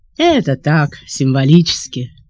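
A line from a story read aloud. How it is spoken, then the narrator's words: Plain. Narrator (Russian): ответил Семенов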